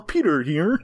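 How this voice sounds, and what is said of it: Goofy nerdy cartoon character voice. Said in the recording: “don't pull out your bozo voice... It's a little Bullwinkle-ish... Not really Bullwinkle, it's Joey Gladstone doing Bullwinkle... nerd voice... It's also a nerd voice.”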